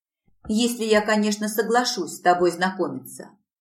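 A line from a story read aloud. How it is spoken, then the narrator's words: Grumbling. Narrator (Russian): пробурчала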